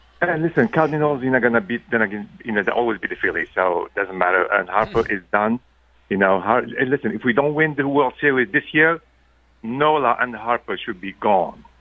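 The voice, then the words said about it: Slightly French-sounding accent. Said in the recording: “Is that French? It sounds French. ... what's that accent? ... do you have an accent? ... I thought it sounded a little French.”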